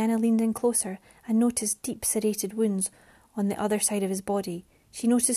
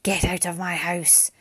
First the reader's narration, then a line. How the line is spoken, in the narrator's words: it growled